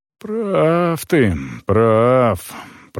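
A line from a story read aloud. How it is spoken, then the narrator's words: Grumbling. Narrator (Russian): проворчал Унрау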